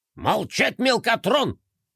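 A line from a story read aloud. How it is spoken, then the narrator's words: General barking. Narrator (Russian): рявкнул генерал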